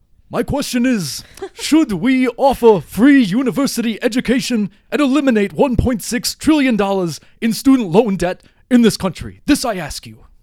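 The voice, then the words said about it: Muppet-style puppet character voice. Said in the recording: “a good impression ... a really good impression of someone from Sesame Street or ... the Muppets ... a Jim Henson impression”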